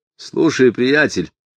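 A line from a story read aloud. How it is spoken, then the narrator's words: Sharp, abrupt. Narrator (Russian): резко сказал Поль Ховер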